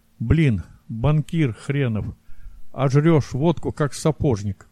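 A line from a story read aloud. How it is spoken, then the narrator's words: Grumbling. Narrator (Russian): проворчал Белов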